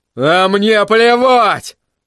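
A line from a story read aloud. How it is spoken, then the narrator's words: Roared again. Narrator (Russian): снова взревел Крис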